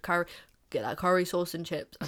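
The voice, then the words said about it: Bad imitation of another person's accent. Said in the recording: “that was a really bad accent.”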